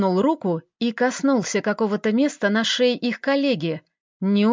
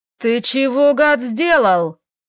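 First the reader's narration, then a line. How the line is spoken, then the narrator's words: Colleague yelling. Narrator (Russian): завопил второй коллега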